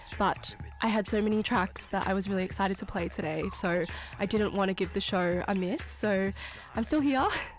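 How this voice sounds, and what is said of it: Slightly unwell, rough voice. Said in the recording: “I'm a little bit unwell, so if my voice sounds a little bit not the nicest”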